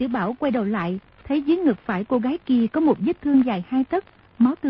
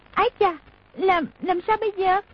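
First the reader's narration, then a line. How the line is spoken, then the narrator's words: Sudden cry. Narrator (Vietnamese): tiểu quận chúa chợt kêu lên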